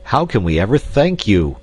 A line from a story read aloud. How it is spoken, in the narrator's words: he exclaimed